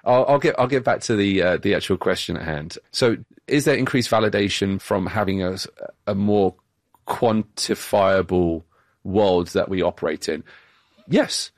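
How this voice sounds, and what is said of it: British accent. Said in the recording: “it's my British accent that makes me sound more... when our guest has a British accent”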